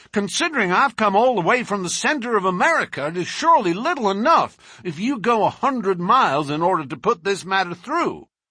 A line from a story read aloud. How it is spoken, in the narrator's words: he added hotly